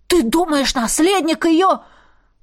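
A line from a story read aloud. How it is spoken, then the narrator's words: Astonished breath. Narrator (Russian): Пораженно выдохнул орк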